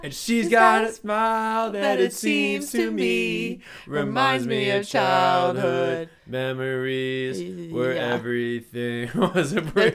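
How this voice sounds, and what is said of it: Loud yelled singing. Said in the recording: “I'll stop yelling. ... Oh, my ears are bleeding.”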